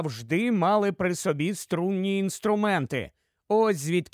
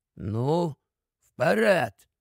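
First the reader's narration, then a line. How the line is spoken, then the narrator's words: Whispered. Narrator (Ukrainian): прошепотів Бобер Пітерові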